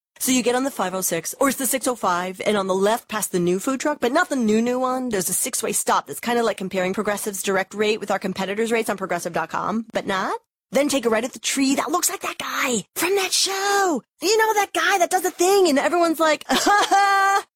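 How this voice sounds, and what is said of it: Imitates a rambling bad direction-giver. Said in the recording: “my impression of someone who is terrible at giving directions”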